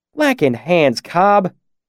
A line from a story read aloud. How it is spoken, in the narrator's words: Carter said, his voice thick with reproach